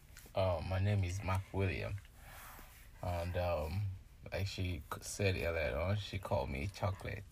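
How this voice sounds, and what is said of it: Heavy Nigerian accent. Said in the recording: “He's Nigerian, like 100% Nigerian. And his accent is very heavy.”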